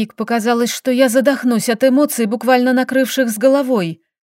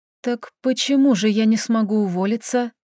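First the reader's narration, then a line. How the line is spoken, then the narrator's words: Whisper. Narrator (Russian): прошептала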